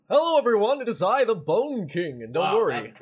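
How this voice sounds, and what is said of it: Put-on character voice. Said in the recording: “I won't do this voice the whole time.”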